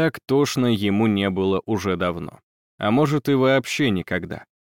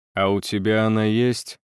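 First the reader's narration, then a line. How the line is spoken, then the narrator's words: Tired question. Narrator (Russian): спросил Виттелли устало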